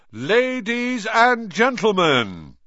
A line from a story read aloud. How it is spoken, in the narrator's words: he said loudly